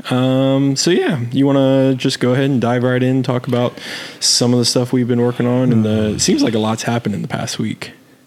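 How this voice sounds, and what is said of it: Strained, partly lost voice. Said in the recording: “If I sound a little odd, my voice is a little gone”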